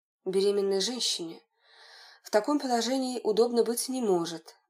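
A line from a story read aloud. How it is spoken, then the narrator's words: Sighing. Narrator (Russian): вздохнул Данилов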